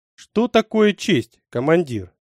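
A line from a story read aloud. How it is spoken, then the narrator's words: Calm question. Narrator (Russian): спокойно спросил меня Сурендра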